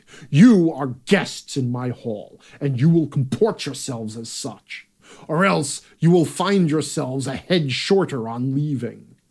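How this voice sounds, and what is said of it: Angry king character voice. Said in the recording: “I wasn't doing an accent for the king ... That's just a voice that comes out of me ... He got angry.”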